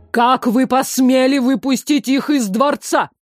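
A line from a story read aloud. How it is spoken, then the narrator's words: Strained, through gritted teeth. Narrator (Russian): процедил Харт, пытаясь успокоиться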